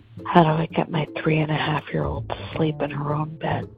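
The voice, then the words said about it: Whispering. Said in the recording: “Sorry that I'm whispering.”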